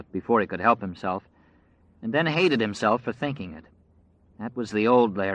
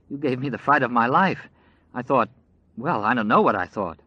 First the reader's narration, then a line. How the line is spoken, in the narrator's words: was saying shakily, with one hand pressed to her chest